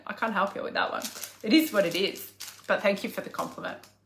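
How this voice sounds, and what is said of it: Australian accent. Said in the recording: “your Aussie accent is so freaking cute ... People just love my accent ... I spit fire at your ass in an Aussie accent”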